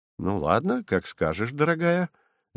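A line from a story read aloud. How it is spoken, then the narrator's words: Cheerful agreement. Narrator (Russian): весело согласился Вадим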